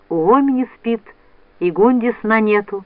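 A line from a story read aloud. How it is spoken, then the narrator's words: Plain. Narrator (Russian): ответила мать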